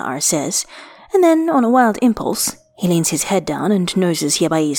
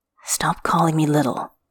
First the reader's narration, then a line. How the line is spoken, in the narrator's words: Xia'ar murmurs